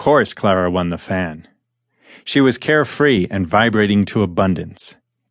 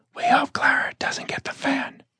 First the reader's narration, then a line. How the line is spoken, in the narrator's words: The poor and resentful ones whispered